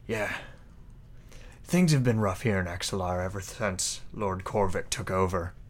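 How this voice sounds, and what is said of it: Put-on character accent that shifts. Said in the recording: “My accent just went very different very quickly.”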